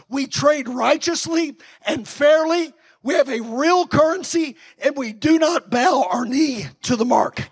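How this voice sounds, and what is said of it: Worn, strained voice. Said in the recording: “Excuse my voice. I've been preaching all week”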